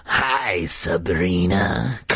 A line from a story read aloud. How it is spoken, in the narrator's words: Carly Beth growled